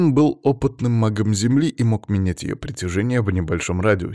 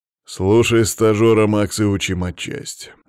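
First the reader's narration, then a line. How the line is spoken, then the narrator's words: Tense snort. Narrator (Russian): напряженно хмыкнул Иван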